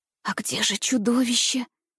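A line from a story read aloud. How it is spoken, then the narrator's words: Frightened whisper. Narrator (Russian): в страхе прошептала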